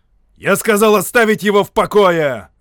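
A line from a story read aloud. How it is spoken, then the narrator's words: Bark. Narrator (Russian): рявкнул Шарп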